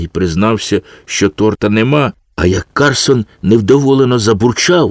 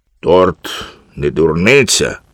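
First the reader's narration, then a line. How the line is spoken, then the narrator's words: Stern. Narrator (Ukrainian): суворо сказав Карсон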